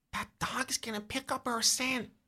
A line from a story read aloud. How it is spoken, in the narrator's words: Corey whispers